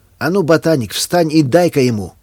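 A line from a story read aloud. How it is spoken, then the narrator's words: Sarcastic shouting boy. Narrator (Russian): язвительно закричал высокий мальчишка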